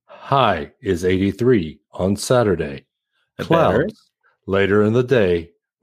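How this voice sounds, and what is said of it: Robotic weather announcer voice. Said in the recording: “Make a sound like the robot dude on the Weather Channel ... you are getting very close”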